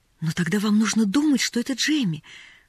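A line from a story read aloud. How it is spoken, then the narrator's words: Pleading. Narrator (Russian): взмолилась Поллианна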